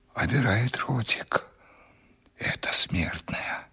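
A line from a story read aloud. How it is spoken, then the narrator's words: Servant whispering in ear. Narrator (Russian): прошептал мне на ухо слуга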